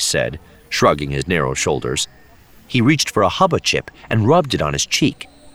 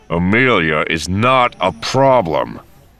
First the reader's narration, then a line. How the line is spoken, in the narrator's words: Han said through gritted teeth